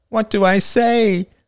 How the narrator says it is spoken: She whined

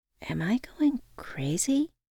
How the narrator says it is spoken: quietly asked

